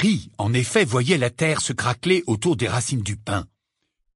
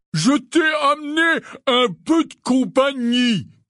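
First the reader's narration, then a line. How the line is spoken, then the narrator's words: Shouting. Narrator (French): cria Hagrid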